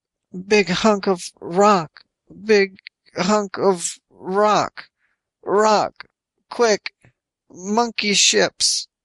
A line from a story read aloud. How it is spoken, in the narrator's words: all he could manage was